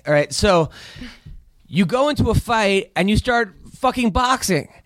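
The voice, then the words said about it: Raised, yelling voice. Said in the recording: “are you yelling at me right now? ... You are so yelling. ... Raise your voice.”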